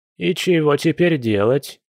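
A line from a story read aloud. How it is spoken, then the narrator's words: Old woman's gloomy question. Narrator (Russian): мрачно спросила баба Эля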